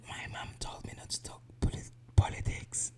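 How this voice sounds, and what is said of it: Whispering. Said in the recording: “why are you whispering? ... So that's why I'm whispering.”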